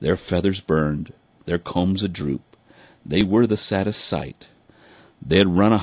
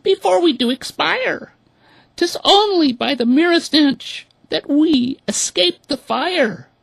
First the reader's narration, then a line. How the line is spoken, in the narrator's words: these poor birds cried